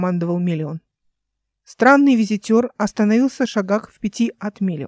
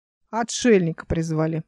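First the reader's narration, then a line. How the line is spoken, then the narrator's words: Grumbling. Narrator (Russian): ворчал кто-то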